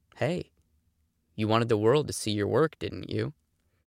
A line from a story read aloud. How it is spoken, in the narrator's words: he leaned in and whispered